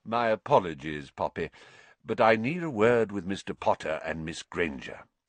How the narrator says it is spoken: said Dumbledore calmly

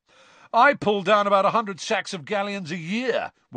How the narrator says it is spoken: one of them shouted

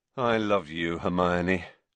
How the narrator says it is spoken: said, sinking back in his chair, rubbing his eyes wearily

